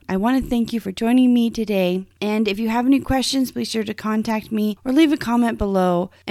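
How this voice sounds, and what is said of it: Strained, weakened voice. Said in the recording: “my voice just isn't up to par”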